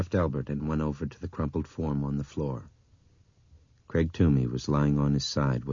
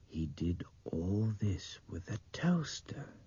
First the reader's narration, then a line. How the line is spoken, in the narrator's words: Nick muttered